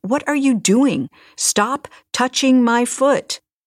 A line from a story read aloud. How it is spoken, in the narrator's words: I stood up in the water and yelled